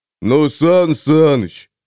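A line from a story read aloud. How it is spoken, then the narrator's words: Offended drawl. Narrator (Russian): обиженно протянул он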